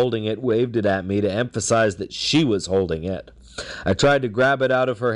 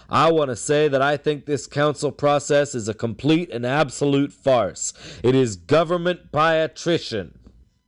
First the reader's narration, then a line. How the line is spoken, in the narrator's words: said in a loud and angry voice